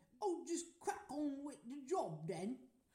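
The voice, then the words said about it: Put-on English accent. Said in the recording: “Do that in an English accent?”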